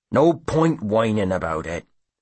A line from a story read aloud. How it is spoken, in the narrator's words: Brogan snaps